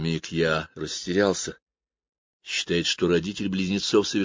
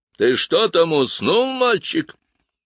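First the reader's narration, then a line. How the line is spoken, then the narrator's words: Thundering voice. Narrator (Russian): прогремел голос дудочника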